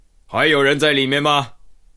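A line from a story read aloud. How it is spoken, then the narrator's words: Calling out. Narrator (Chinese): 喊了一声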